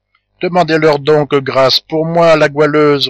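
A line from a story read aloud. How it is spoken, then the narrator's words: Imploring. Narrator (French): reprit Mont-Saint-Jean, implorant la jeune fille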